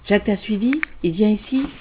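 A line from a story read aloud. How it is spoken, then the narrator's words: Whispered. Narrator (French): a chuchoté Ed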